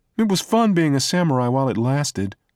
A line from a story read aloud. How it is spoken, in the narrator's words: Dak said sadly